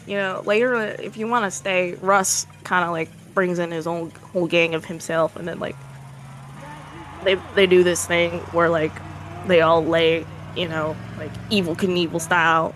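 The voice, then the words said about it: Thick country accent. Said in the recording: “I don't remember my accent being this thick ... When my blood gets pumping, I get more... I come back to my true roots ... Time goes on, I get more country.”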